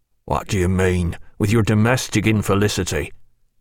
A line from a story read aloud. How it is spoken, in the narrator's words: asked Bondon in a stern voice